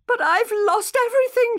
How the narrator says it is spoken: she said, sobbing

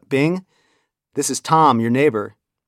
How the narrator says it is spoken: I called out

